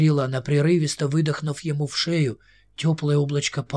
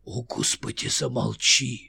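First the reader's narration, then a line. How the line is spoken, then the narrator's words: Mutter. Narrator (Russian): пробормотал он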